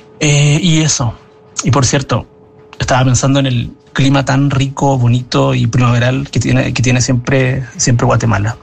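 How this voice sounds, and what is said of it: Chilean Spanish accent. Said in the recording (Spanish): “que acento más lindo el que tiene Chile”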